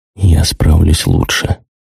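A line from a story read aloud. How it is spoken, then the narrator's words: Quiet. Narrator (Russian): тихо сказал я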